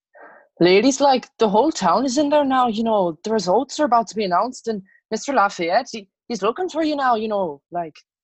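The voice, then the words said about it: Shoddy put-on Irish accent. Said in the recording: “with the shoddy Irish accent”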